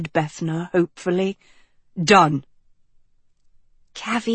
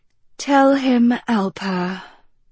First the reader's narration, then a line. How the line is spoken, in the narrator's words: Bethna sighed